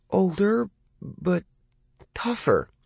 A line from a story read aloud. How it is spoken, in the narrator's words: Lee said hesitantly